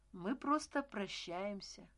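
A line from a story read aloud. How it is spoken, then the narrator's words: Calm reply. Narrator (Russian): спокойно ответил Стась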